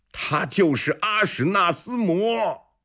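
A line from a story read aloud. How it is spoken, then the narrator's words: Loud shout. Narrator (Chinese): 长孙无忌 大喊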